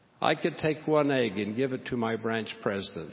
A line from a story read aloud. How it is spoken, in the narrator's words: he said